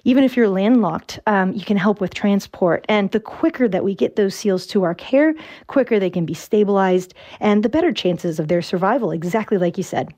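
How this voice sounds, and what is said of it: American accent. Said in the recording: “I'm from Virginia. I've been living here for about 6 years and I have not picked up an Irish accent yet”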